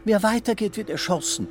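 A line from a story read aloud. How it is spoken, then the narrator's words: Playful call, silvery laugh. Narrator (German): ruft ihm übermütig zu und lacht silbern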